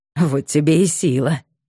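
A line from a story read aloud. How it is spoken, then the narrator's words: Satisfied snort. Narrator (Russian): удовлетворенно хмыкнул Гордей Богданович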